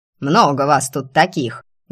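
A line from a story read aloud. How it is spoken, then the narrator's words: Menacing old woman barking. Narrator (Russian): грозно гавкнула бабка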